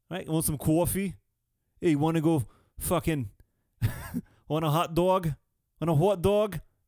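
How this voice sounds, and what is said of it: Put-on New York accent. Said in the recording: “A New York accent.”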